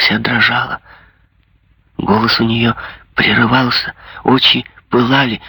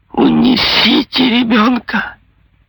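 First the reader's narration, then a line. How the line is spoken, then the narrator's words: Exclaimed. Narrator (Russian): воскликнула она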